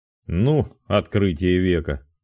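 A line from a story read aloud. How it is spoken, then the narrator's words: Contemptuous snort. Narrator (Russian): презрительно фыркнул Роман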